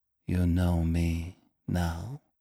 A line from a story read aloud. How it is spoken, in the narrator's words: she whispered